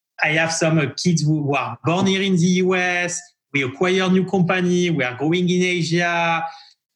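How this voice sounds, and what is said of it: French accent. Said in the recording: “I come to the US with my French accent, where sometimes people capture 80% of what I could say.”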